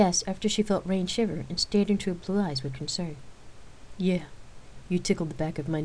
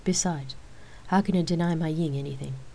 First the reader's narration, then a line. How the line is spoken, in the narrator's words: Rain chuckled